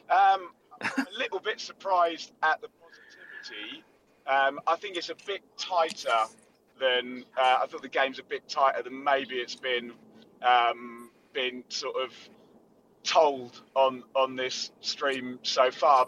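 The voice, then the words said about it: Hoarse, worn-out voice. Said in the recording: “You can hear my voice has gone a little bit because it was very loud in the rookery end... God, my voice really has gone.”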